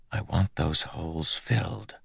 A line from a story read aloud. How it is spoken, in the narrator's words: whispered to himself